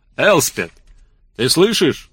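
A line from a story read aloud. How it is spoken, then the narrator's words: Loud yell. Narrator (Russian): заорал он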